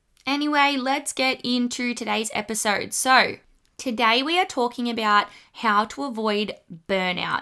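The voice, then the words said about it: Australian accent. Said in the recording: “my accent isn't too bogan or I don't pronounce things too funny ... the kind of Australian slang”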